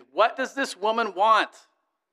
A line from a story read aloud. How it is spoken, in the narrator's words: the judge impatiently demanded